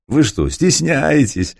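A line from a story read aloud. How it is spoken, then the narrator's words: Laughing. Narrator (Russian): засмеялся князь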